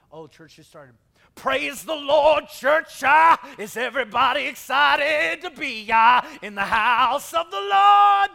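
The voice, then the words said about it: Exaggerated preacher voice. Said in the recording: “my preacher voice”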